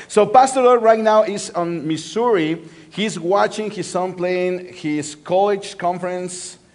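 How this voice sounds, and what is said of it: Spanish-accented English. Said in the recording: “I have a sexy accent, right? Like Antonio Banderas accent.”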